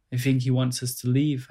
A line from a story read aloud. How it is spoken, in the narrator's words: I said